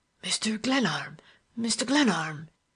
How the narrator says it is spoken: he exclaimed in broken whispers

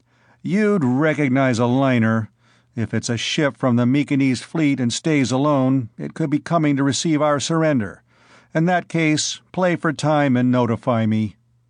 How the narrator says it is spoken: Bors said grimly

